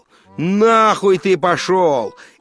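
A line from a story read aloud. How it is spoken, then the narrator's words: Shout. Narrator (Russian): крикнул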